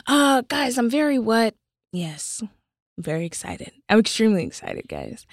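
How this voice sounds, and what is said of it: Put-on sick, sexy-sounding voice. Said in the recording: “I'm going to stop talking like this now ... When I was sick, y'all were saying that my voice was sexy ... But I was trying to replicate it”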